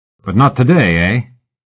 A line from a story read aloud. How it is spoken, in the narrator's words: Tate chuckled behind his kerchief